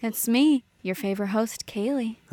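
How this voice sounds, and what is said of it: Sultry, sexy put-on voice. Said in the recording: “That's a good voice ... this is Sexy ... Date Night ... a sexier podcast voice”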